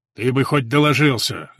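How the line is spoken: Grumbling. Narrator (Russian): заворчал Борис

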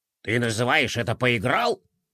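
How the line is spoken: Grumbling. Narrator (Russian): проворчал лежащий рядом генерал де Кроль

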